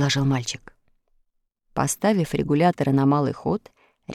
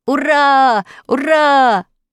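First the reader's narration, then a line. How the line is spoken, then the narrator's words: Shout. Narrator (Russian): закричал Тим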